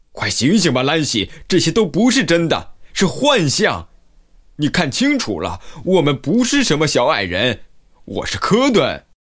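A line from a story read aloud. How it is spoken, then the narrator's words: Loud shouting. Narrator (Chinese): 大声的喊道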